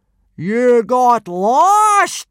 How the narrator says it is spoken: boomed Gobber, not believing his ears

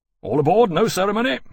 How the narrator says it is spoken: Lawrence shouted

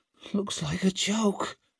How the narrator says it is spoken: whispered Ricca

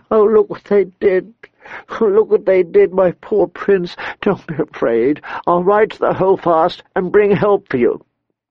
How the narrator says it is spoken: sobbed

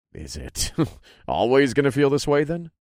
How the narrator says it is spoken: I chuckled

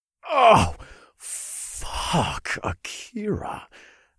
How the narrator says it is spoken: I moaned

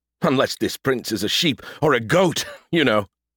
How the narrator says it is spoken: he chuckled

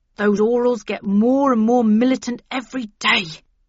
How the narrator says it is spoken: he gasped

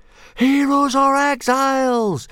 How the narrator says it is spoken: yelled the watching hooligan and meathead tribes

